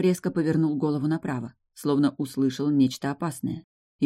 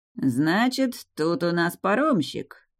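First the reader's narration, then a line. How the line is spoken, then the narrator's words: Lazy, bearded man. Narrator (Russian): лениво проговорил один из бородатых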